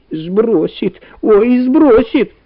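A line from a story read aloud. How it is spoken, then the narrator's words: Shrieking. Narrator (Russian): визжала Валя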